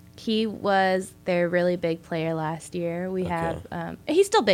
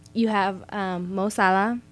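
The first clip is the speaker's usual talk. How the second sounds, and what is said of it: Strong Hispanic accent. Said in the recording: “you said that with a super, super Hispanic accent.”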